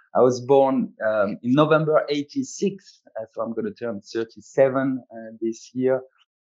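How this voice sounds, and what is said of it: French accent. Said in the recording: “as you probably guessed from the accent, I'm French.”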